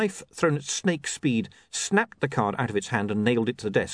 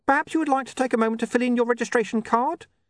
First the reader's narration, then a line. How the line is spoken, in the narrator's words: said the imp, desperately